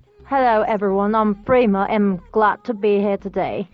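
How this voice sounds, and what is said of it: Put-on British accent. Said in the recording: “Use your British accent.”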